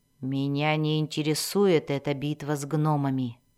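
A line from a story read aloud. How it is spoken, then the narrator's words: Grumbling. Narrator (Russian): проворчала Мэлис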